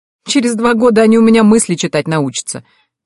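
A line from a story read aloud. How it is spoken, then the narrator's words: Laughing. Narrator (Russian): рассмеялась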